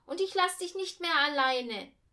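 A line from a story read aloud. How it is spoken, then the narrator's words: Called out. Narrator (German): rief sie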